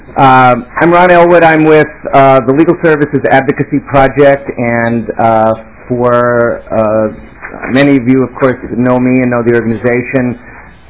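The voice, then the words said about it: Slightly hoarse voice. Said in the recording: “I'm battling a little hoarseness here”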